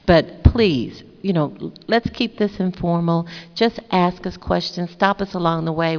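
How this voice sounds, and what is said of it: Texan country accent. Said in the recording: “I am from Texas, born and raised in Texas, so my accent is a little bit more country than his”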